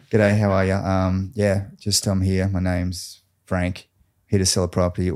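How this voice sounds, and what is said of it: Exaggerated Australian accent. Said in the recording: “Give us your best Aussie accent then... that's my Aussie accent”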